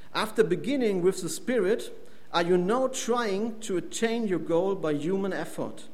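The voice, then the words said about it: German accent. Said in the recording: “my accent ... I'm a German, and I also come from the Ruhr district in Germany”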